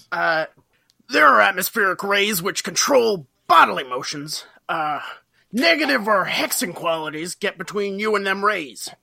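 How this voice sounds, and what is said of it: Imitates another person's voice. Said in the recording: “Can you say that again, but in an Alex Jones voice?”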